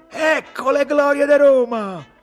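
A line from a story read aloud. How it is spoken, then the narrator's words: Shouted. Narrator (Italian): gridò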